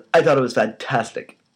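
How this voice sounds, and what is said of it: Impression of Louis Walsh. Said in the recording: “That was a good impression. ... Do a whole podcast as Louis watched sometime.”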